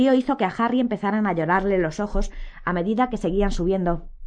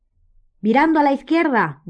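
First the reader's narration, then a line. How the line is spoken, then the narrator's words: Shouted. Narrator (Spanish): gritó Ojo Loco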